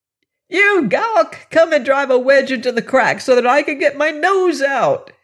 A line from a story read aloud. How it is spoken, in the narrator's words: bawled